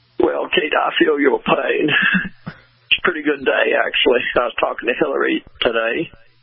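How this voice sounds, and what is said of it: Bill Clinton impression. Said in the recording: “There's my imitation level ... I used to do him even better when I was in office”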